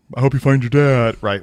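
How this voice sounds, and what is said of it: Impression of the narwhal's voice. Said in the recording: “that was a great impression just then ... that was a good one. It sounded very good.”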